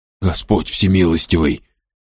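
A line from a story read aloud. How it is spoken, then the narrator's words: Old man muttering. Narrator (Russian): пробормотал старик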